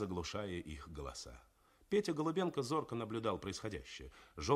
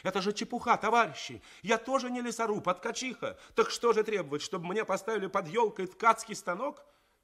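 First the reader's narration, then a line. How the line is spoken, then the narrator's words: Ringing shout. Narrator (Russian): Тоня Васяева закричала звенящим голосом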